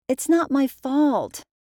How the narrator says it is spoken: cried Nora

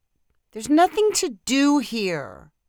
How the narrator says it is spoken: cried Sophie

